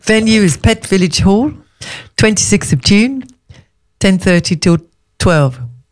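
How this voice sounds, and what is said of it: Put-on South African accent. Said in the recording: “why you need a South African accent to announce an East Sussex networking group”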